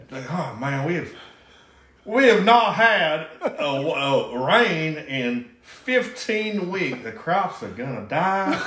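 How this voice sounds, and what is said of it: Exaggerated cartoon Southern drawl. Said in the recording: “Foghorn Leghorn accent that you were doing”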